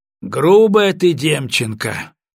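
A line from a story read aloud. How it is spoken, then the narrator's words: Loud voice. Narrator (Russian): громко произнес он, стараясь привлечь внимание Екатерины Семеновны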